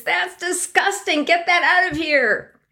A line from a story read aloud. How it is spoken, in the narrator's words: there were screams